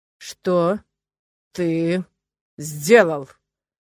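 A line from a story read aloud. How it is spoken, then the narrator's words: Slow booming voice. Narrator (Russian): Медленно прогрохотал я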